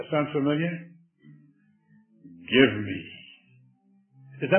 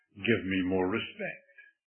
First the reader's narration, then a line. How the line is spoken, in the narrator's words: The parent cries out